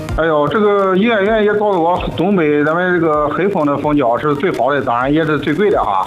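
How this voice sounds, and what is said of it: Xuzhou regional Chinese accent. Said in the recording (Chinese): “你也是徐州的吗？我听你口音跟我一样”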